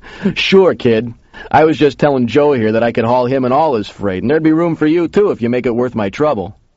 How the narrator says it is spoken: The big guy laughed and said

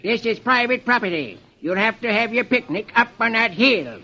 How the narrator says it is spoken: a farmer snaps

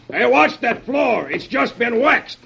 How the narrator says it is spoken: The sergeant yells

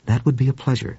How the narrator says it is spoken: said Duane

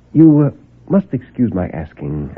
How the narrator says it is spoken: I said

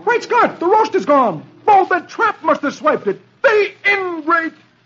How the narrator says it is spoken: He exclaims

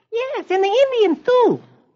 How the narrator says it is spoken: little Michael chirps

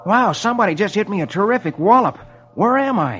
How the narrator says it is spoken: His head hurts, and he exclaims

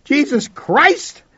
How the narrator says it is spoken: I shouted

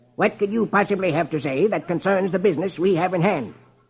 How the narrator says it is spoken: Marlowe snaps

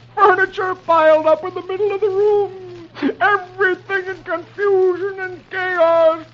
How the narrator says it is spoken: the tears roll down Dagwood's face and he moans

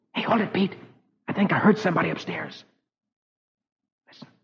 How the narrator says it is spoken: Suddenly Rusty whispers

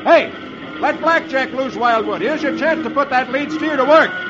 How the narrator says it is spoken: shouts

